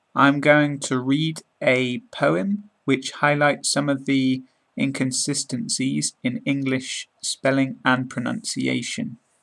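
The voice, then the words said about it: British English accent. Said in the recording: “British accent podcast”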